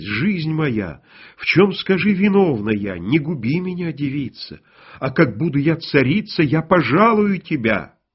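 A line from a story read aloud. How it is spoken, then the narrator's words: Terrified pleading. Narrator (Russian): царевна до смерти испугалась, и взмолилась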